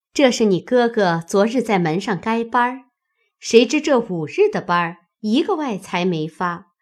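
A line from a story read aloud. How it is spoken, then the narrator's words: Smiling. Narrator (Chinese): 他嫂子又笑道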